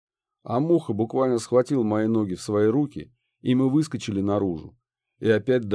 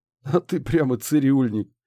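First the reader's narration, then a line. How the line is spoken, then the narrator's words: Chuckling. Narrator (Russian): хохотнул Муха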